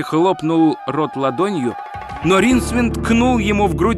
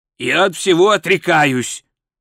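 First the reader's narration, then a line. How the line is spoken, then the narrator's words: Irritated declaration. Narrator (Russian): раздраженно заявил Золотуха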